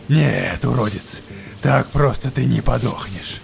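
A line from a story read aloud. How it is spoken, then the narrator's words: Growled. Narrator (Russian): Прорычал Верзила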